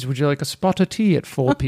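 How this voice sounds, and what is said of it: Put-on British accent. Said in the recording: “in a British accent, of course ... it always sounds like a good idea with a British accent”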